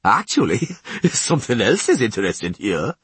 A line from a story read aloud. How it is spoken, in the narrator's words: laughed the dwarf